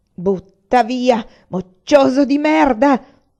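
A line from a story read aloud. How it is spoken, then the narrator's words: Shouted. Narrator (Italian): gridai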